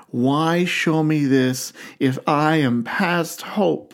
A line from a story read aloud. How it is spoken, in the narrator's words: He asks desperately